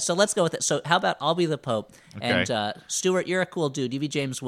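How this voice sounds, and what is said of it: Usual voice. Nothing is said of it.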